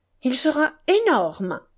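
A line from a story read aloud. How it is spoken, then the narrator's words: Boy's exclamation. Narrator (French): s'exclama un des jeunes garçons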